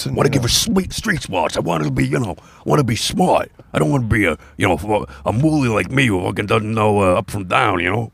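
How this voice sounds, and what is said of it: Joey Diaz impression. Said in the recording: “That's my Joey Diaz impression. ... whenever I do my Joey Diaz impression, I somehow go into this, you know, you motherfucking cocksucker.”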